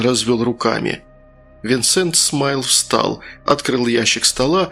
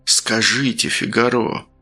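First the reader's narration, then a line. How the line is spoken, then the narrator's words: Honeyed, sweet voice. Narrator (Russian): медовым голосом произнес начальник тудымской жандармерии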